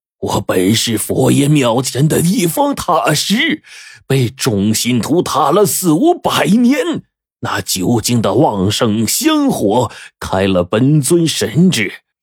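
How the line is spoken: Angry. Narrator (Chinese): 这尸魔突然开始愤怒的说

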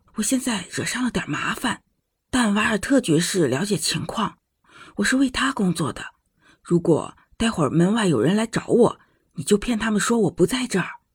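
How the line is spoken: Lowered voice. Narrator (Chinese): 我压低声音说

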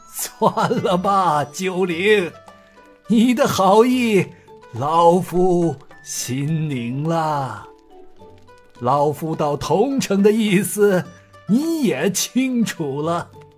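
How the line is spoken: Light laugh. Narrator (Chinese): 正门主笑了笑说

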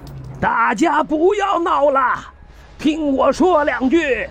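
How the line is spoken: Shouting to crowd. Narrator (Chinese): 对着人群喊

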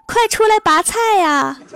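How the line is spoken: Shouting. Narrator (Chinese): 一边拔一边冲我们喊

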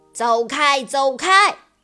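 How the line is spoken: Roaring ship whistle. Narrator (Chinese): 汽笛大吼大嚷着

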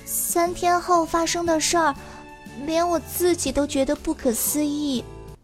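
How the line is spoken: Quiet. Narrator (Chinese): Lucy 小声说

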